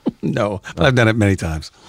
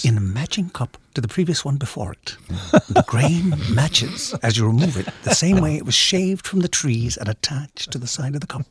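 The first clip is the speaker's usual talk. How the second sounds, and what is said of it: Put-on English accent, commercial voice. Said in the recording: “do this voice ... for a commercial ... Oh, we thought it was an English guy.”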